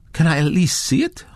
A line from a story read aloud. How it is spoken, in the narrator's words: Hydra pleaded